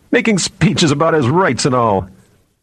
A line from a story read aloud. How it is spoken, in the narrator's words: one of the other men said, laughing